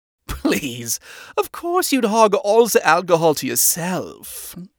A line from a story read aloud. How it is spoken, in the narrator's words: Helsa laughed